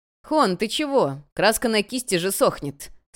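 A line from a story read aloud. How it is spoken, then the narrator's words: Artists laughing. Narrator (Russian): смеялись художники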